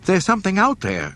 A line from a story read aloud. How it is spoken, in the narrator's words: she cried